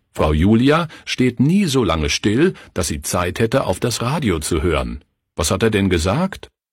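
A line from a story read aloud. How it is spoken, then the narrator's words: Harsh, deafening mimicking voice. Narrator (German): Klaus rief mit harter, ohrenbetäubender Stimme, den Redner nachahmend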